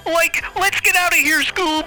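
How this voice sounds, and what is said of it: Shaggy from Scooby-Doo cartoon voice. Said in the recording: “I'll do the voice ... That was Shaggy from Scooby-Doo.”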